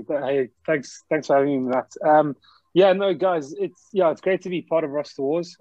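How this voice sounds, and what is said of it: Slight South African accent. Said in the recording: “as you can probably pick up by the accent straight away, I've actually got a bit of a South African twang.”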